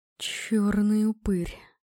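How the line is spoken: Breathed out. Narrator (Russian): выдохнул муж

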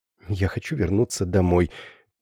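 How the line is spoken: Mumbling under breath. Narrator (Russian): пробормотала она себе под нос

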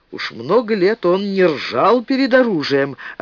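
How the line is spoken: Joyful young man. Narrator (Russian): радостно сказал широкоплечий парень

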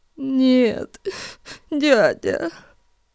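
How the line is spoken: Sobbing frightened mumble. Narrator (Russian): всхлипывая от боли и страха, пробормотал Эрн

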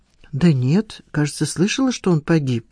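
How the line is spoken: Uncertain. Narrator (Russian): неуверенно сказала Надежда

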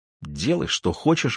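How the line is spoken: Mumbling. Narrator (Russian): бормочет Алиса

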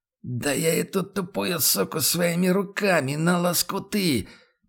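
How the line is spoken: Hoarse after coughing fit. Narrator (Russian): Начинает хрипеть прокашлявшийся и продышавшийся Хьюга

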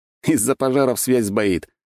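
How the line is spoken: Snorted. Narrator (Russian): хмыкнул я

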